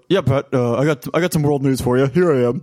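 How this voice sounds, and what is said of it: Imitates another person's voice. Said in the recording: “Can I do a Nick Maraldo impression? ... That's what he sounds like. Exactly.”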